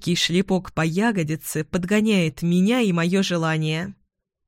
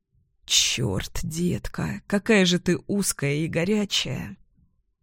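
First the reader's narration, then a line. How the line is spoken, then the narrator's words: Muttering. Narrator (Russian): Бормочет Штерн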